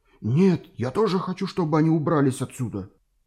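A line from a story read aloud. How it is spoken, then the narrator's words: Frightened rapid chatter. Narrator (Russian): испуганно затараторил профессор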